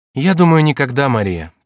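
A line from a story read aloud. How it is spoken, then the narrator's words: Sad king. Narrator (Russian): печально отвечал король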